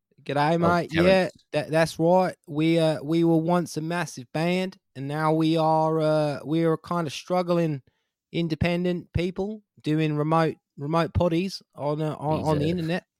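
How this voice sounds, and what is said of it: Put-on Australian accent. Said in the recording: “He's been living in Australia. ... how does an Australian?”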